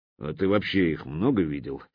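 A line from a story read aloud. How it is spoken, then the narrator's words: Grumbling mutter. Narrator (Russian): буркнул брюква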